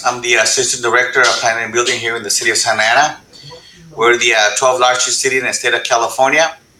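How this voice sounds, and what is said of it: Very heavy accent. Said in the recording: “you can tell by the way I speak, my accent is very heavy”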